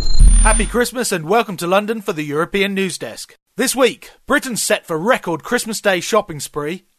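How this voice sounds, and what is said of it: English accent. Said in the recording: “the guy with that funny English accent.”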